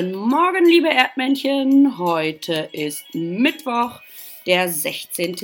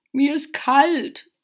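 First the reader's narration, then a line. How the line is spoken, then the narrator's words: Raven croaking. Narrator (German): krächzte der erste Rabe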